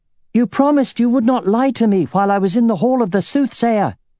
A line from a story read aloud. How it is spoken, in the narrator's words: she had shouted into the air